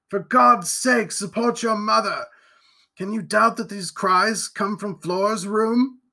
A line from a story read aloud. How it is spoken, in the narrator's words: he cried